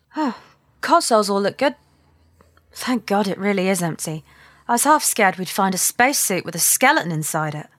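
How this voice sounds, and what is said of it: British accent. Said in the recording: “this is a little bit more your accent area... You get the Brit to say half scared”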